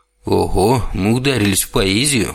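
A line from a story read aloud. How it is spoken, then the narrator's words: Amused snort. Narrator (Russian): хмыкнул Вельхиор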